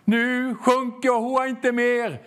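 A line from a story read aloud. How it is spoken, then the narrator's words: Mother suddenly screaming. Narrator (Swedish): helt plötsligt skriker mor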